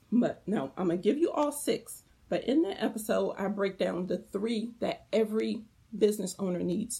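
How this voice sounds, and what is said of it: Strained, failing hoarse voice. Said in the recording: “Oh my God, I'm losing my voice.”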